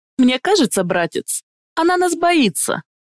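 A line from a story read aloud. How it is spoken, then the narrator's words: Laughing. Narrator (Russian): рассмеялся Эарон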